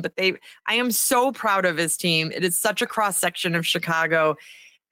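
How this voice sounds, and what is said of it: Slightly raspy voice. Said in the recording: “I sound a little raspy ... screaming ... I lose my voice every night”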